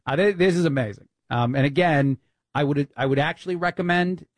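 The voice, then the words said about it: Put-on New York accent. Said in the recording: “I don't know why I go into my New York accent.”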